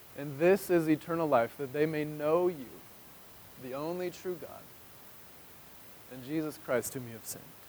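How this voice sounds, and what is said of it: Emotional, choked-up voice. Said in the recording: “why are you guys making me get all emotional?”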